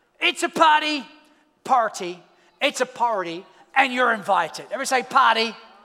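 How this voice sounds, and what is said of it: Australian accent. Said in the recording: “Get used to that accent. It will be the accent of heaven... you have to learn how to say g'day”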